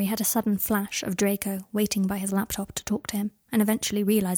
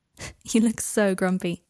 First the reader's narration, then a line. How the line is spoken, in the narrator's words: said Harry, laughing